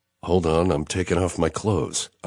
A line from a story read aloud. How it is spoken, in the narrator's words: I mutter, concentrating on trying not to stumble